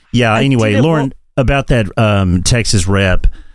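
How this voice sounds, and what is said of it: Put-on Texan accent. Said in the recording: “God, I'm talking like a Texan.”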